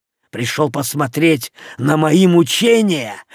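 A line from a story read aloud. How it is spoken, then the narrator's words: Hoarse, dull voice. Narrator (Russian): Его голос был хриплым и каким-то тусклым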